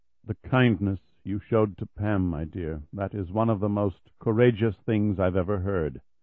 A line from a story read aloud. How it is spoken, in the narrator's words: the pastor said quietly, moved nearly to tears himself